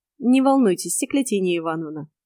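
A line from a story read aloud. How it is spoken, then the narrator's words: Ingratiating voice. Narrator (Russian): вкрадчиво проговорил медноволосый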